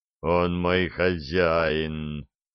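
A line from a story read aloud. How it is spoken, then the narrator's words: Moaning. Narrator (Russian): простонал Абдулла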